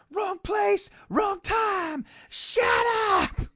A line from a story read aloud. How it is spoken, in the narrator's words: Sid just gets in his face and yells